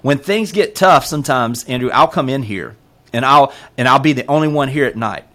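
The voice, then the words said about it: Noticeable regional accent. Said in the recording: “This accent?”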